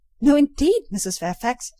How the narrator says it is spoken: exclaimed I, nettled

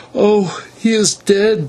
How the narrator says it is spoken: she moaned

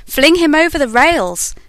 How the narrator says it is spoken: roared the mob

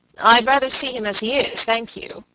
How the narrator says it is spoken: he said

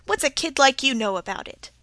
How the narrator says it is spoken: he laughed quite briskly as he asked

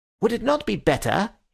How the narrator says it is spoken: he said a little sharply

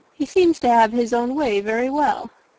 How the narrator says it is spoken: replied Colonel Fitzwilliam

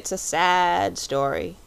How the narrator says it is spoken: said the Psammead gloomily

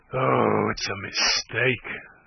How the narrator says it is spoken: she groaned

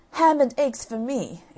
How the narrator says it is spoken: exclaimed Jack

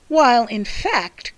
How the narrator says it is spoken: cried his sister

